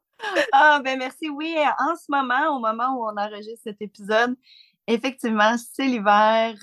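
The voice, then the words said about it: Quebec French accent. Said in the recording (French): “Merci pour ton accent ... le Québec”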